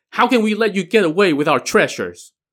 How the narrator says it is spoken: The three sisters were furious and shouted

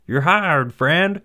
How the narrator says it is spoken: the foreman shouted

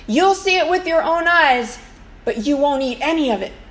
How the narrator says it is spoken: Elisha's ... he shouts out

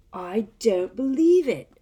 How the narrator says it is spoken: Ron said in a stunned voice

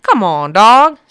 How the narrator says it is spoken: said the cowboy, chuckling

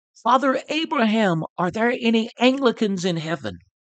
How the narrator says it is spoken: Whitfield cried out

